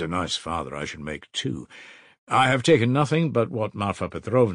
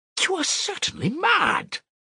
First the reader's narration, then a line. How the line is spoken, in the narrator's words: cried Raskolnikov, not so much angered as astonished